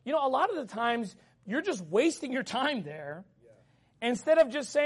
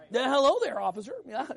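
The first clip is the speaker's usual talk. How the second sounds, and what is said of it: Exaggerated stereotypically white-sounding voice. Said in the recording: “I put on my whitest voice ever”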